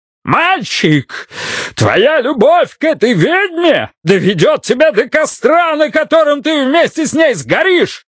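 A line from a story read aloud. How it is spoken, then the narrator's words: Furious red-faced yell. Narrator (Russian): Заорал Бидвилл, побагровев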